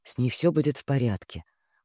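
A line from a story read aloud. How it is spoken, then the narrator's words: Uncertain mutter. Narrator (Russian): пробормотал он, то ли спрашивая, то ли утверждая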